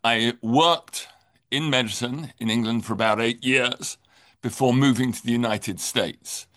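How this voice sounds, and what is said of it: English accent. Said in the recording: “I am obviously English. You can hear my accent.”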